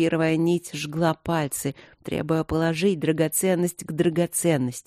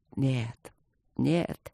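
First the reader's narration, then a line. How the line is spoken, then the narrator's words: Barely audible whisper. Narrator (Russian): прошептал он то ли вслух, то ли про себя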